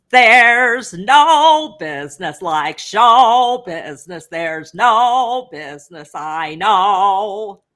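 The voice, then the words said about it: Sung impression of another singer. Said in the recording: “you actually do a great impression of Ethel Merman”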